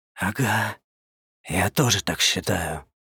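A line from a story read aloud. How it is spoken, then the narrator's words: Whispered reply. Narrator (Russian): шепотом откликнулся дядя Коля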